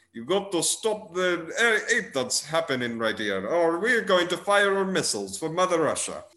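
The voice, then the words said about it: Deliberately bad Russian accent. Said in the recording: “a guy speaking in a very bad Russian accent.”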